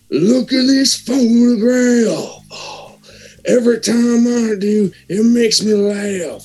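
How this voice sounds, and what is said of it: Singing impression with audible breathing. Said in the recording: “hear my Nickelback impression ... I like that breathing in there.”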